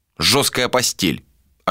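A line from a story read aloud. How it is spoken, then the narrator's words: Snapping back. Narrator (Russian): огрызнулся он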